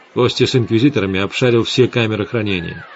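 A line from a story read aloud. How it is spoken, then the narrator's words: Plain. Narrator (Russian): сказал Гессер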